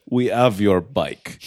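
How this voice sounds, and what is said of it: Thick put-on Russian accent. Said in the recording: “thick Russian accent”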